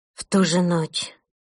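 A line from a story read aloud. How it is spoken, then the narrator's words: Breathed out. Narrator (Russian): выдохнула Маша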